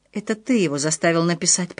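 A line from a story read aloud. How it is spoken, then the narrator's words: Whisper. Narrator (Russian): прошептал Отто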